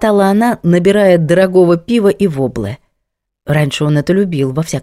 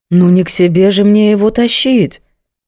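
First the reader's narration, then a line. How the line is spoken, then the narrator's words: Indignant. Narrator (Russian): Возмущенно Герда Альбертовна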